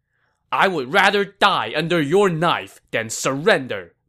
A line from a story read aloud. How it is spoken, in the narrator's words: Pang De shot back angrily as he cursed non-stop